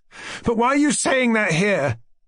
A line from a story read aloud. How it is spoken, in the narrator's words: cried Aglaya suddenly